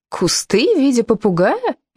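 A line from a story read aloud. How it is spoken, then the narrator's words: Cheerful incredulous exclamation. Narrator (Russian): веселым голосом недоверчиво восклицала Ирен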